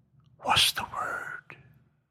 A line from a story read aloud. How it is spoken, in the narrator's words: whispered